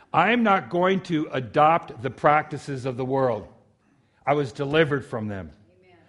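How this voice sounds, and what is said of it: Local South Linden accent. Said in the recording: “They sound alike, especially the way I pronounce them. ... It's that South Linden accent.”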